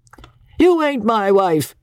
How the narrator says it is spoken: retorted Doc, with the privilege of 60-odd, and roared again

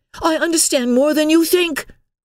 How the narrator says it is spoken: cried Emily indignantly

